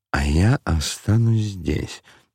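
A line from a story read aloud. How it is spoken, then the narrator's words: Mumbling. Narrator (Russian): бормотал он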